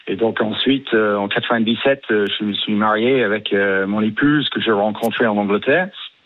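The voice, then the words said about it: British accent speaking French. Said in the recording (French): “votre accent britannique”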